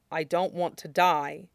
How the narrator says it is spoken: There's another brief pause before Alistair says quietly

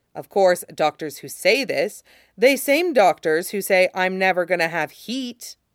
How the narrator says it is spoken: he says bitterly

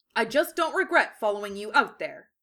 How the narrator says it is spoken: Lee said firmly

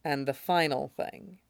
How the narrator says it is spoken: Winda said very softly

